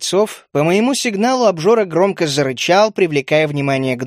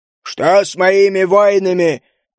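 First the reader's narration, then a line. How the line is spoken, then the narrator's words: Loud commanding demand. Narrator (Russian): громко и властно потребовал объяснений гном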